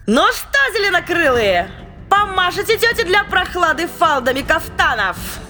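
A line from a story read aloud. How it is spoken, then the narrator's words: Shouted. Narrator (Russian): Крикнула она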